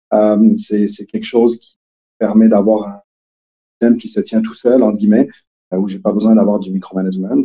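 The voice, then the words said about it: Québécois French accent. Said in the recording (French): “ça a déjà paru dans mon accent, mais je suis plutôt québécois”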